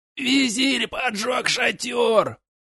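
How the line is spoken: Hoarse wheeze, wounded throat. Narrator (Russian): Захрипел он на языке пустыни, держась за окровавленное горло

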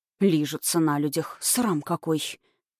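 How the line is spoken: Low-voiced condemnation. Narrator (Russian): вполголоса заклеймил их Борис

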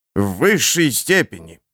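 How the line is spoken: Menacing judge. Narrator (Russian): грозно вещает судья

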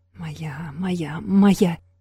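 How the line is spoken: Greedy inner whisper. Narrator (Russian): жадно шептала внутренний голос

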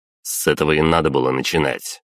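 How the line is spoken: Sharp reply. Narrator (Russian): резко ответил я

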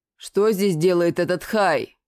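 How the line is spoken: Rude growl. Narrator (Russian): Совершенно неполиткорректно рыкнул Рогат

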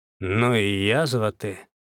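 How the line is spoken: Grumbling. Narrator (Russian): пробурчал Козлов

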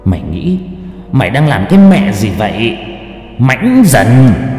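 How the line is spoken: Hissed through teeth. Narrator (Vietnamese): Nó rít qua kẽ răng

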